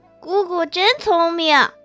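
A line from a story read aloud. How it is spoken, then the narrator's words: Laughing praise. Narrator (Chinese): 众人皆笑，众客更拍掌笑赞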